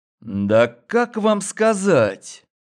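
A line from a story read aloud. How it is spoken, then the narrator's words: Drawling. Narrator (Russian): Протянул я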